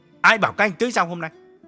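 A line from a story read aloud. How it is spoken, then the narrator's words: Harsh demanding question. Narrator (Vietnamese): Nhất gay gắt hỏi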